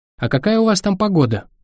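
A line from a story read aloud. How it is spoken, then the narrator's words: Cheerful question. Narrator (Russian): весело спросила Гвен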